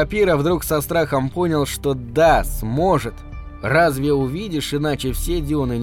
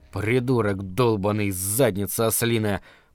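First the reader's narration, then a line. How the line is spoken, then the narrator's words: Grumbled reply. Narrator (Russian): проворчал в ответ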